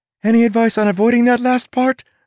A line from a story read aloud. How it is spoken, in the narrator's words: Tress asked, her voice growing more shrill